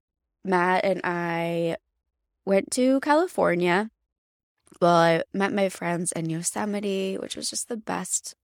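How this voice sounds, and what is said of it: Voice slightly off from illness. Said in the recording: “My voice may sound a little bit off today because I do have COVID”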